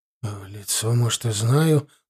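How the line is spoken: Mutter. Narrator (Russian): пробормотал Рафаэль

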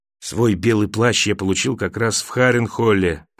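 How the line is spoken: Whisper. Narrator (Russian): прошептал он

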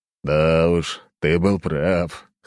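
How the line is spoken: Chuckling. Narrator (Russian): хохотнул глава корпорации

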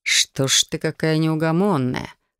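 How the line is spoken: Amused snort. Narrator (Russian): хмыкнул он

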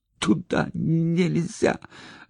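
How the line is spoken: Forced out. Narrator (Russian): выдавил Санька

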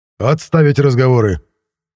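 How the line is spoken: Barked reply. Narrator (Russian): рявкнул я в ответ

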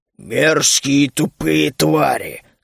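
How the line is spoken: Angry growl. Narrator (Russian): зло рыкнул Бруни

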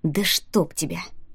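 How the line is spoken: Muttered. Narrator (Russian): пробормотал Рианон

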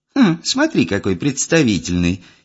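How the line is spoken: Giggling. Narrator (Russian): хихикнула та, что с синим

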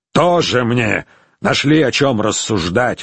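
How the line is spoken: Scoffing snort. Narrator (Russian): фыркнул он

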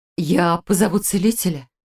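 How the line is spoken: Flustered, curt. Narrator (Russian): растерянно бросила Иллиурия

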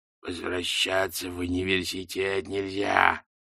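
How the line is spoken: Muffled growl from box. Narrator (Russian): прорычала шляпа из глубины коробки

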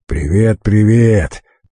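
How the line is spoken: Booming, droning voice. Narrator (Russian): прогудел в ответ Стариков

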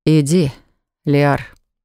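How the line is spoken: Loud exhale. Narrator (Russian): шумно выдохнул парень

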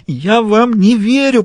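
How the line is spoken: Moaning. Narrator (Russian): простонала она

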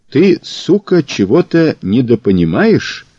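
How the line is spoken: Asked through gritted teeth. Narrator (Russian): сквозь зубы спросил Мазур

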